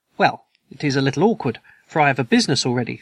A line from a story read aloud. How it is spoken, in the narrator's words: said I